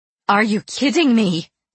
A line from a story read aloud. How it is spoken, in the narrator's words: cried